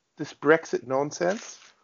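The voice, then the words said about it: Put-on British accent. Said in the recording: “my uh, British accent. I apologize.”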